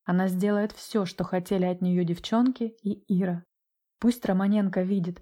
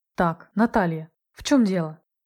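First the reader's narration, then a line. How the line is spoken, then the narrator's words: Sharp question. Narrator (Russian): Резко спросил ее Осипенко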